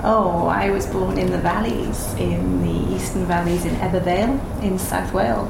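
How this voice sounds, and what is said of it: Welsh accent. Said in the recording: “you will hear an accent. She's Welsh ... yes, the accent does come out”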